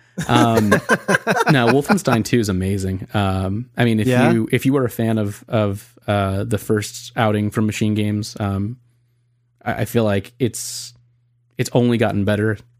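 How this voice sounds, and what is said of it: Sick, rough-sounding voice. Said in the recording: “I apologize for my voice. I'm still very sick. ... Sorry for this voice quality.”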